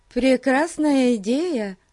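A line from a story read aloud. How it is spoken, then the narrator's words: Cheerful, smiling. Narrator (Russian): весело улыбнулась Зоя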